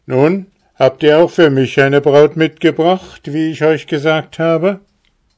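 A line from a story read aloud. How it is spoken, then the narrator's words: Calling from afar. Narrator (German): Er rief ihnen schon von weitem zu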